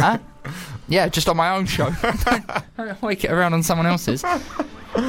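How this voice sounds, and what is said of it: Usual voice. Nothing is said of it.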